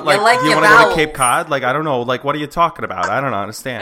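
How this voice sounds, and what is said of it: Put-on Boston accent, wide vowels. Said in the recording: “Does anyone do a Boston accent? ... talk like really wide ... words with lots of, the the ca vowel”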